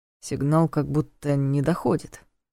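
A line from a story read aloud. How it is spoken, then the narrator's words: Muttering. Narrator (Russian): пробормотал он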